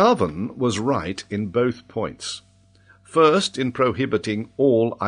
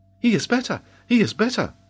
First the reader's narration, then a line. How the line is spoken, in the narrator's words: cried Robert